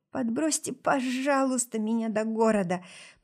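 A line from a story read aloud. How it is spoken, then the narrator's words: Pleading voice. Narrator (Russian): попросила я умоляющим голосом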